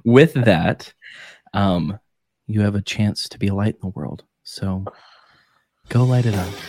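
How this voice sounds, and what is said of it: Soft NPR announcer style voice. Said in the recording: “NPR voice. ... so I can make it ASMR too”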